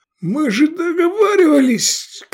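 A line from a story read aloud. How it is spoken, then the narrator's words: Hoarse shout, drowned out. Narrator (Russian): крикнул он осипшим голосом, но бой барабанов, резкие звуки рожков, визг, свист и трели флейт похоронили его протест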